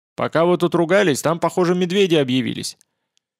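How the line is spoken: Shouted from cabin. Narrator (Russian): Потупчик крикнул из рубки

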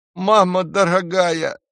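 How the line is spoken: Elder's whimper. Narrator (Russian): захныкал старший Флинт

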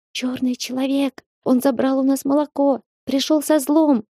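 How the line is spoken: Squeaky voices. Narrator (Russian): пищали они

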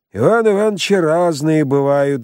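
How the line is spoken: Sighing shopkeeper. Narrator (Russian): вздохнул лавочник

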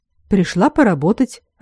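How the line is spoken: Surprised, slightly hurt. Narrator (Russian): ответила Айлин удивленно, немного обиженно

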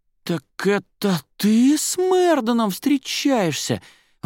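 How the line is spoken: Choked out, breathless with emotion. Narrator (Russian): выдавила, наконец, она, чуть не задыхаясь от эмоций

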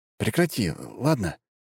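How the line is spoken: Soft. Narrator (Russian): мягко произнес Кирилл

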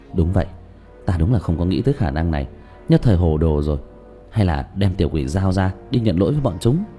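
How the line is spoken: Stunned muttering. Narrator (Vietnamese): Tứ Bảo há hốc mồm lẩm bẩm

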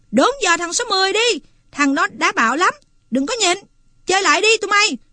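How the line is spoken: Heated, angry yell. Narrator (Vietnamese): Tần cảm thấy bực bội, máu chảy rần rật, người nóng ran, hét

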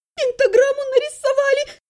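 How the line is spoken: Sobbing. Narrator (Russian): всхлипнула она

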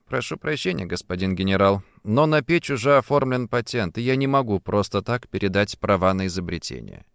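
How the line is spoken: Calm. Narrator (Russian): я спокойно сказал

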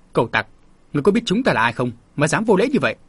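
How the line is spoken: Angry bark. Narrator (Vietnamese): Một trong số đó quát

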